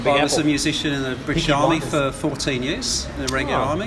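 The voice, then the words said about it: British accent. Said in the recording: “By the accent, you probably realise I was originally from the UK.”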